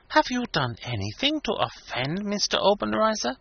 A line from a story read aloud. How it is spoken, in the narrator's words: She whispered eagerly